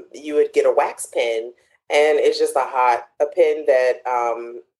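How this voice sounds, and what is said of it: Accent where pen sounds like pin. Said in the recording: “I have an accent, sorry. So PEN and PIN are the same.”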